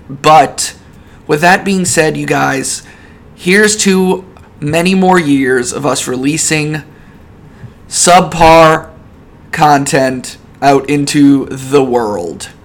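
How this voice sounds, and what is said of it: Hoarse, fading voice from a cold. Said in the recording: “I've got another freaking cold, and I'm losing my voice”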